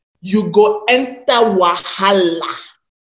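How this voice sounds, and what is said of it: Nigerian pidgin accent. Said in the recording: “let me use my Nigerian pidgin accent”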